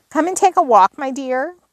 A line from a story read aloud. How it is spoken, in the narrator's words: cried Polly